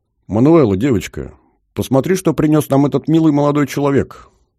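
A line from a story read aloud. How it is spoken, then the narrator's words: Loud hostess. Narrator (Russian): громко сказала хозяйка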